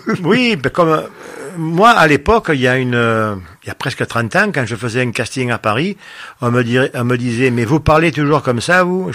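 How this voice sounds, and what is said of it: Marseille southern French accent. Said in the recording (French): “j'ai l'accent de... Comme disait l'autre, j'ai attrapé l'accent qu'on attrape en naissant du côté de Marseille ... notre accent du midi”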